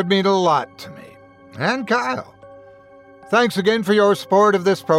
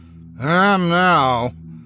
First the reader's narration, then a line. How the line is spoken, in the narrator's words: I remarked dryly